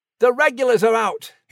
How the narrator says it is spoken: he urgently told him

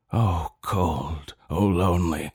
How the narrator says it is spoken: he groans

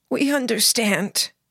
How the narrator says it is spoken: the man said, his voice strained and trembling

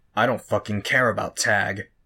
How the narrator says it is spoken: Bitch growled

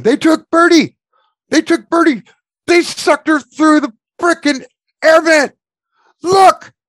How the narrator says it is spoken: He's screaming

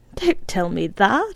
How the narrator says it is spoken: she laughed

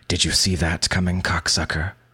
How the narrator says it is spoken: he hisses

